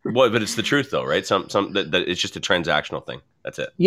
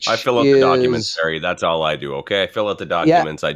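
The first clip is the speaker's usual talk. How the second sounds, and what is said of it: Imitates a typical dismissive realtor. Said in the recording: “Doing a very good imitation of lots of the realtors I've dealt with.”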